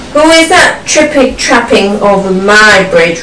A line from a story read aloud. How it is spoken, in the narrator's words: roared the troll